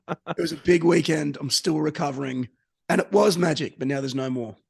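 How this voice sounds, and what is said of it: Tired, worn-out voice. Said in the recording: “as you can probably hear in my voice.”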